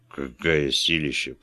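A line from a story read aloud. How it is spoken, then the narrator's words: Muttered. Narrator (Russian): пробормотал он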